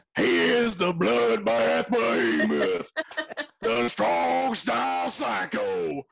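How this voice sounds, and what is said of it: Gravelly, rough impersonated voice. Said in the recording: “pretty darn good Reverend Dan Wilson impression ... I feel like I need a throat lozenge after he's talking ... like he's like chewing on gravel”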